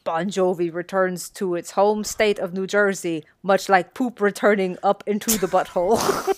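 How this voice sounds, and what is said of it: Poor put-on Eastern European accent. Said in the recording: “I will do my best to do the Eastern European accent. I'm very bad at this.”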